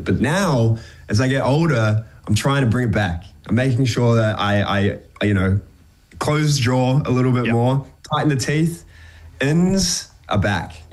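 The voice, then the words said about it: New Zealand accent. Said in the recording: “I've regressed back into my New Zealand accent”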